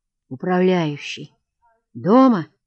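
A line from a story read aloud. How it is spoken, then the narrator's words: Muffled dull question. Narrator (Russian): спросил он глухо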